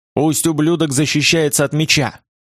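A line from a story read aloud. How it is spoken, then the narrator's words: Growl. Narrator (Russian): прорычал Томас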